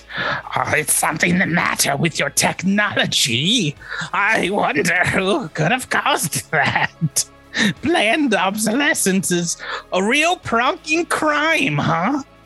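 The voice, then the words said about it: Character voice impression. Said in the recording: “That's my Evil Raimi impression.”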